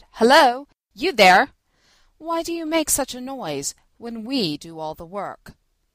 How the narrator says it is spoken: the oxen, who turned round indignantly and said

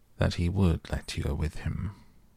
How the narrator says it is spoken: in a very low voice, he said

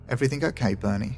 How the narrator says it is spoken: asked nervously

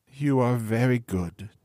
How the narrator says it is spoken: sighed the other

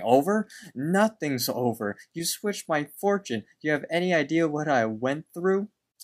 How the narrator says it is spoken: Benson screams over, screams at them, saying

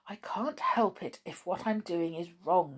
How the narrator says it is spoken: she kept whispering to herself

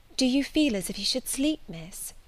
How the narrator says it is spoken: asked Bessie, rather softly

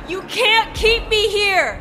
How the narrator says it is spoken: I screamed out

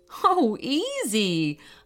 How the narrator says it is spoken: laughed her mother

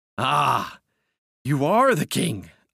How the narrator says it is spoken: I cried

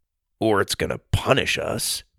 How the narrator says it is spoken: Sawyer mumbled

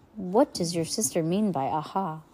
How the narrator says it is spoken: Klaus sighed

